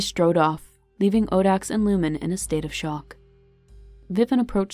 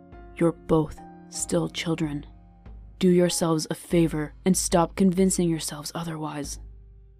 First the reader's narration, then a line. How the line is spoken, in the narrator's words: muttered